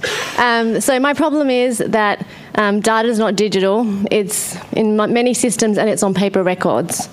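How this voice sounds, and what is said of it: Australian accent, fast speech. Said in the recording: “I have Australian accent, so hopefully you can understand me. And I talk fast.”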